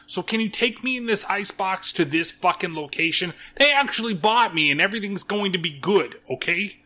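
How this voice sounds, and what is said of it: Demon voice, Jersey or New York accent. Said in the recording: “the fucking demon has a fucking, like, almost Jersey stupid accent that I can barely fucking do as well, or maybe New Yorkish”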